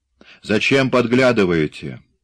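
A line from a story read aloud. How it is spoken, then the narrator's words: Rude shout. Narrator (Russian): грубо прикрикнул на нее Форстер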